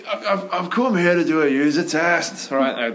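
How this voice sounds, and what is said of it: Poor attempt at Scottish accent. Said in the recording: “Scottish like, accent ... See, terrible. I don't do accents.”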